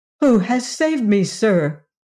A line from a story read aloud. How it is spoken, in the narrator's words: exclaimed Ojo, readily astonished at the sight of the stranger